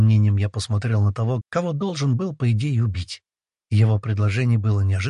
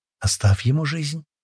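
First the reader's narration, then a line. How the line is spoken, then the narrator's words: Soft breathy whisper. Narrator (Russian): тихо выдохнула мне в ухо Аштар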